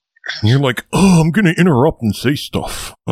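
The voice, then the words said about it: Imitates another person's voice. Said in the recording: “That is a pretty good impression of me.”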